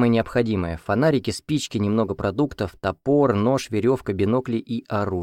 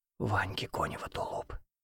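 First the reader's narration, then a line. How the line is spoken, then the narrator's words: Whispered in ear. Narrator (Russian): зашептал мне он на ухо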